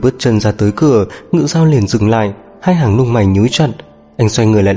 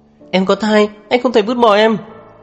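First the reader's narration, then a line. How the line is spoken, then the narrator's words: Sudden, desperate, loud. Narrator (Vietnamese): Tôi Thu đột nhiên bất chấp tất cả, lớn tiếng nói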